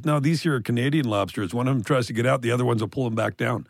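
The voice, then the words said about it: Newfoundland accent. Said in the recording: “I caught the Newfie accent there, though. The Newfoundland ... accent ... pretty good”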